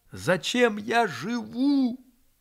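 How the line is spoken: Loudly. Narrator (Russian): громко сказал он

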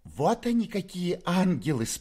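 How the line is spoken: Squeaky praise. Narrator (Russian): пропищала в свою очередь в похвалу Фоме девица Перепелицына

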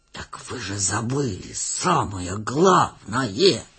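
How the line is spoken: Tragic hissing whisper. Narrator (Russian): трагическим шепотом свистел он

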